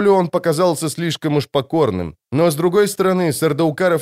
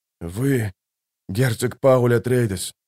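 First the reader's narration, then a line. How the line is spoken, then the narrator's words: Hoarse. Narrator (Russian): хрипло ответил Сардаукар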